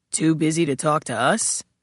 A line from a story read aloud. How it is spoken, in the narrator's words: Kepler repeated, his voice gravel